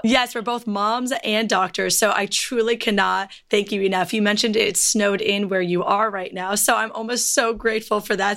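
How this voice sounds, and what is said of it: Raspy, hoarse voice. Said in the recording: “my voice is all raspy ... you just get a horsey version of my voice”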